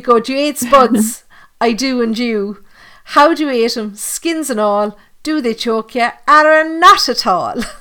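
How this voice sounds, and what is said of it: Put-on Cork Irish accent. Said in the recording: “that's my best Cork accent.”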